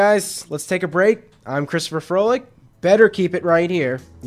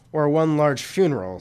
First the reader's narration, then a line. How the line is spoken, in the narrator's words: Sydney grunted